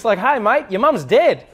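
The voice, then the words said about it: Upbeat Australian accent, rising intonation. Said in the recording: “accent is that you always sound happy... it always goes up and it's like really exciting... even if an Australian gave you bad news, it always sounds good”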